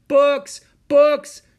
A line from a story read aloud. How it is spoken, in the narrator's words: she shouted